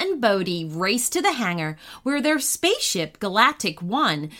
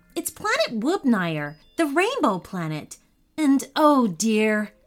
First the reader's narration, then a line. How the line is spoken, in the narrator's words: said Mom